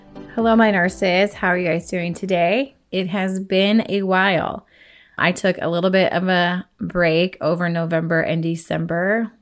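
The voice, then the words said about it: Voice not fully recovered, slightly off. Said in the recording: “I was a little bit sick. You can kind of tell my voice is still hasn't come back 100%”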